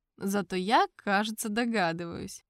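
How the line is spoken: Smirking snort. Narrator (Russian): хмыкнул я

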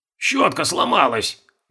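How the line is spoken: Grumbling. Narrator (Russian): ворчал механик

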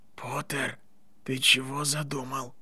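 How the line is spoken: Whisper without moving lips. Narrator (Russian): прошептал Драко, не шевеля губами

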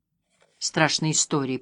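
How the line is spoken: Muttered. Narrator (Russian): пробормотал дядя Эйнар

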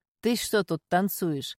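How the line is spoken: Deep bass voice. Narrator (Russian): пробасил хозяин квартиры

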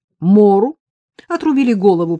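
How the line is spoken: Explaining after laughter. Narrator (Russian): пояснила Вика, отсмеявшись

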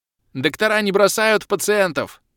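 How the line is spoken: Ringing shout. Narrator (Russian): звонко крикнул док

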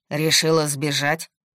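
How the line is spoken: Stern question. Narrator (Russian): строго спросил Максим

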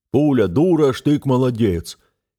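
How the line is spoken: Mocking imitation of old general. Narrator (Russian): передразнил измененным голосом мифического генерала-старпера

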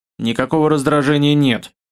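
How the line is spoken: Grumbling. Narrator (Russian): Пробурчав

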